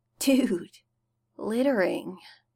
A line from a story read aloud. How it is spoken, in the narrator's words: Styles muttered sleepily